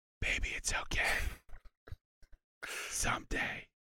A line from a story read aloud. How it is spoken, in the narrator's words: Tommy whispers